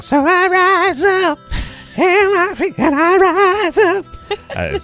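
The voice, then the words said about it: Badly imitated singing voice. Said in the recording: “That was my horrible impression. ... My apologies to whoever sings that.”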